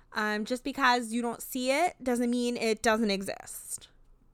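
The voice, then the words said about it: Weak attempt at Chicago accent. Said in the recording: “she's got the thickest Chicago accent out of all of them ... We'll throw in some Valley Girl at the end ... that wasn't very Chicago ... practice my Chicago accent”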